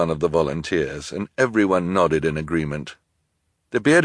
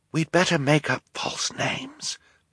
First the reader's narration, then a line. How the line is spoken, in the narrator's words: Violet whispered to Klaus